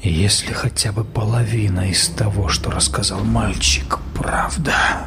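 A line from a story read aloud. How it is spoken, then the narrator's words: Quiet. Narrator (Russian): тихо произнес Генри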